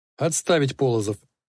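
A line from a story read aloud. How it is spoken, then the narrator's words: Plain. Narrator (Russian): сказал Воронцов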